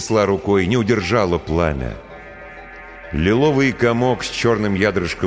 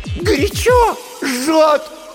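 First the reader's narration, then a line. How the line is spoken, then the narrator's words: Sudden scream. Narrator (Russian): вдруг закричала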